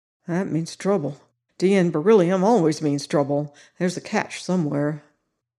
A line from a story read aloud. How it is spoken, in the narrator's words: a short, stubby private named Minetti murmured worriedly